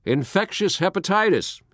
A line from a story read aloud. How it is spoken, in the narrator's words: he shouted heartily